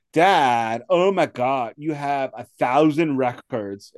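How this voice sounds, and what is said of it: Valley girl voice imitating daughter. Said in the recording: “your daughter does not sound like a Valley girl ... that's me. That is me impersonating her”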